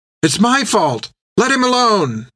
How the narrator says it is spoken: Finn cried

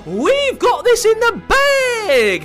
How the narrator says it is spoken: howled the werewolves Will and Water

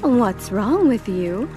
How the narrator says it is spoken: her mother exclaimed

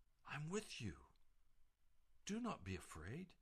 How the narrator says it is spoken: the voice of Jesus would whisper

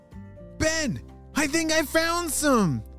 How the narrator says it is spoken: shouted Anna

